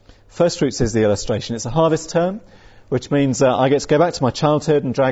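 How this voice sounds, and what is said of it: Usual voice. Nothing is said of it.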